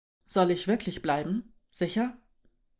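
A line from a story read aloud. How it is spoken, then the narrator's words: Plain. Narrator (German): fragte Mö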